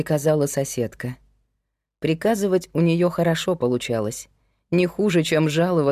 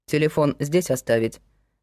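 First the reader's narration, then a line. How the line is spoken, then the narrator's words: Plain. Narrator (Russian): спросил Герман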